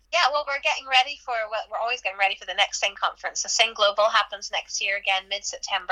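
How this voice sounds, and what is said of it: Irish accent. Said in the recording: “it's just the Irish accent”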